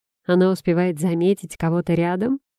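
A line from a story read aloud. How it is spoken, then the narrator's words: Snort again. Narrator (Russian): Антон хмыкнул повторно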